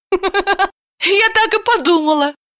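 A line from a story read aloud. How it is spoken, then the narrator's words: Giggling. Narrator (Russian): хихикнула Машенька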